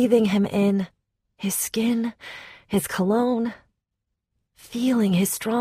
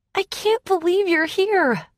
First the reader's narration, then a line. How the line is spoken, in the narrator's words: I cried